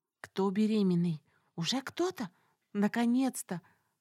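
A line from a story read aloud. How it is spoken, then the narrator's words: Whispers from all sides. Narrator (Russian): слышались шепотки со всех сторон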